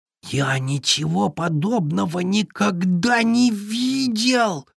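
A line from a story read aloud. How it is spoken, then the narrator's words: Breathless admiring beaver. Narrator (Russian): выдохнул с восхищением бобер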